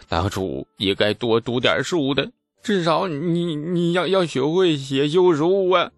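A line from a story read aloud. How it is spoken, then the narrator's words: Heavy sigh, remorseful. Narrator (Chinese): 王庄重重叹气，抱头忏悔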